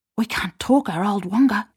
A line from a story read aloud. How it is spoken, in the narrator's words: whispered